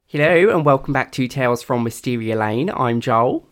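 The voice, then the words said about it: Put-on Australian accent. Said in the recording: “Doing my Australian accent.”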